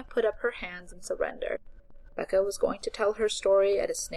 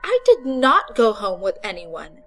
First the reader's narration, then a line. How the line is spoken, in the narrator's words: she said indignantly